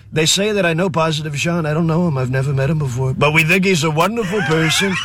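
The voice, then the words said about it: Imitates another person's voice. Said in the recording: “best Trump impression of anybody in ever”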